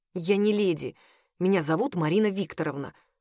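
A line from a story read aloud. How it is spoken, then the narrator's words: Trembling grumble. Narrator (Russian): буркнула, чувствуя, что меня начинает трясти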